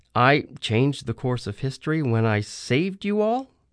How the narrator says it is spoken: I said uneasily

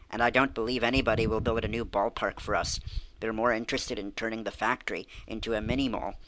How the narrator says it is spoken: sighed Emily

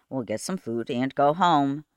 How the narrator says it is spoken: he said calmly

